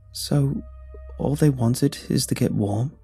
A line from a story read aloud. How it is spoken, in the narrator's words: I asked, hesitantly